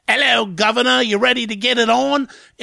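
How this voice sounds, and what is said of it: Put-on Cockney British accent. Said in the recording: “she starts talking in a Cockney British accent ... everything here is great except the voice. This stupid voice”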